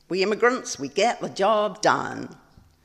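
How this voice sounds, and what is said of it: Attempted American accent. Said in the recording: “I'm not really good at the American accent.”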